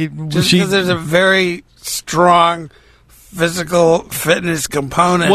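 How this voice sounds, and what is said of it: Usual voice. Nothing is said of it.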